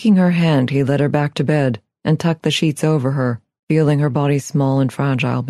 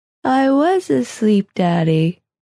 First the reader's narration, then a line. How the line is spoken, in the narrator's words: she said, yawning, her voice thick with tiredness